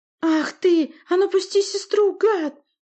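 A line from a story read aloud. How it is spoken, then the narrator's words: Exclamation. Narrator (Russian): воскликнул Олаф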